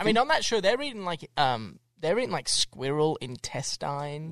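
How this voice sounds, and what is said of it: Australian accent. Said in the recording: “that Aussie accent? ... Is that how they say it in Australia?”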